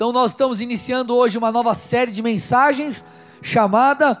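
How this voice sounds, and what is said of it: Usual voice. Nothing is said of it.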